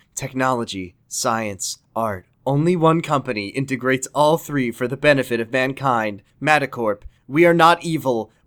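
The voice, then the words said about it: Corporate announcer voice. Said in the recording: “my impression of Matacorp speaker ... the company voice”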